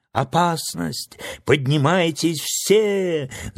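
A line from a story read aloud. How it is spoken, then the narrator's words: Guards shouting alarm. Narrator (Russian): закричала стража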